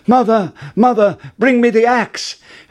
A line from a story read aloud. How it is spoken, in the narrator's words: called out